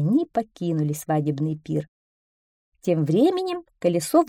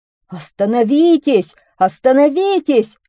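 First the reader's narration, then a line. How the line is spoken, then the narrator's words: Desperate yell. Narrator (Russian): отчаянно заорал мельник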